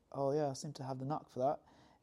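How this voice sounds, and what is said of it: Put-on English/Welsh accent. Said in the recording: “That's an excellent English/Welsh accent”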